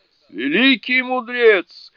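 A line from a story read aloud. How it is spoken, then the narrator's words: Frightened shouting spirits. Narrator (Russian): в испуге закричали духи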